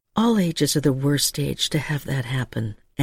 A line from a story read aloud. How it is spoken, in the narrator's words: Anna had murmured